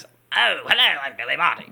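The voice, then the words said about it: Poor imitation of another person's voice. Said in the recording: “his voice, I think, is very, you can recognize ... That's a terrible imitation.”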